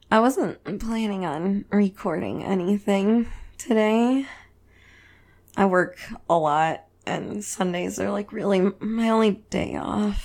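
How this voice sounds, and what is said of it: Raspy voice. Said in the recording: “my voice didn't even totally work at the beginning there. I'm raspy today.”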